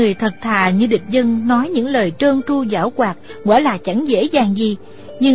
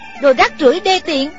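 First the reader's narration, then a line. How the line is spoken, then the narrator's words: Scolding. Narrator (Vietnamese): Thủy Sinh thì mắng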